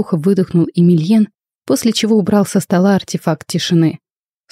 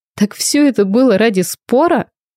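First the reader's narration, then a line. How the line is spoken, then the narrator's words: Nervous laugh. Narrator (Russian): нервно хохотнула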